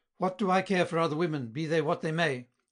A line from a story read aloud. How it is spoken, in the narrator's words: cried Vallombreuse impetuously